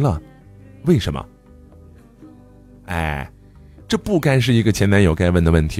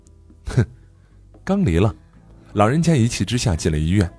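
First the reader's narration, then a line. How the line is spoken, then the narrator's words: Bitter laugh. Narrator (Chinese): 苦笑一声说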